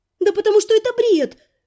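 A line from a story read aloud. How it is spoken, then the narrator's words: Exclaiming, suppressing hysterical laughter. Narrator (Russian): подавив новый приступ истерического смеха, воскликнула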